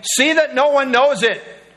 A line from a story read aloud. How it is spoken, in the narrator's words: Sternly warned them, saying